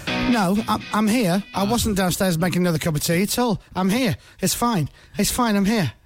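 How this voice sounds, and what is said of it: Breathless, slightly out of breath. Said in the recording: “slightly out of breath there ... I'm only out of breath because I'm poorly”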